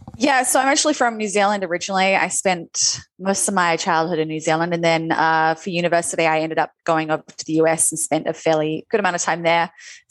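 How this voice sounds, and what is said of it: Hybrid Kiwi-American accent. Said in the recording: “that weird hybrid mutt of an accent ... you can definitely hear some words a bit Kiwi ... American ... Kiwi blended with a bit of US blended with a little Australian”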